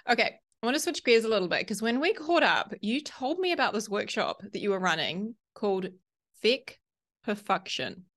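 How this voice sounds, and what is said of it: Cute non-American accent. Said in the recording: “It sounds so cute with your accent that I feel like such a crass American”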